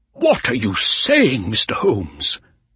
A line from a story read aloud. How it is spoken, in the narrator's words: said angrily